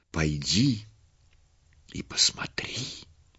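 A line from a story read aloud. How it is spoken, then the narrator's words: Many passing whispering voices. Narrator (Russian): легионы ангелов, пролетая мимо, шептали ей на ух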